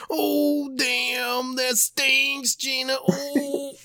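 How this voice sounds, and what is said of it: Macho Man doing Martin Lawrence. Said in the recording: “Sounded like Macho Man doing a Martin Lawrence impression.”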